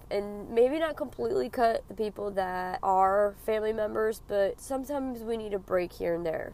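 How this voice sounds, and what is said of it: Raspy voice from a cold. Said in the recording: “my horrible raspy voice. I'm sick. I'm trying to get over this damn cold.”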